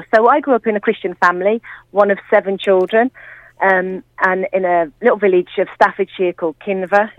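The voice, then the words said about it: English Midlands accent. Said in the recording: “I grew up not in Birmingham ... although it's a Midland accent for sure”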